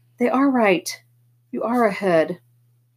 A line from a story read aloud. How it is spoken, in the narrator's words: This girl right beside me kind of gasped and said